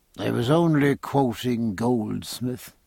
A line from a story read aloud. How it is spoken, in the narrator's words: said Stephen sleepily